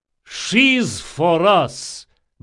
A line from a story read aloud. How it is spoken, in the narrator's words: boomed Radanov